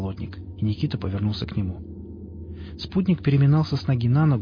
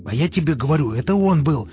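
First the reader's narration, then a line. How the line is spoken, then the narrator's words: Barked, losing temper. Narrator (Russian): рявкнул Пригоршня, выходя из себя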